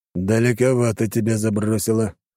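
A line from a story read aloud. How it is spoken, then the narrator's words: Amused snort. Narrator (Russian): хмыкнул Бердышев-старший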